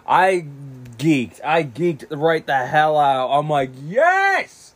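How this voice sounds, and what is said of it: Excited screaming. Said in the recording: “sorry for screaming in this podcast”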